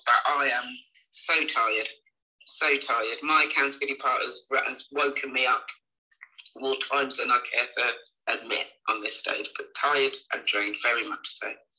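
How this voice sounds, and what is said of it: Slightly croaky, hoarse voice. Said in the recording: “My throat is still a little bit croaky, still a little hoarse”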